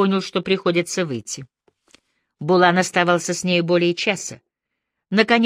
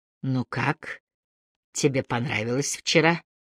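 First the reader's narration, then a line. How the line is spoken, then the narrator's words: Quiet speech. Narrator (Russian): Он ей тихо говорил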